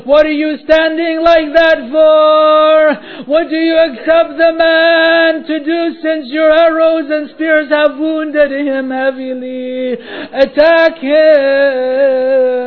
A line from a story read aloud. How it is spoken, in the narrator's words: Shimr ibn Dhil Jawshan shouted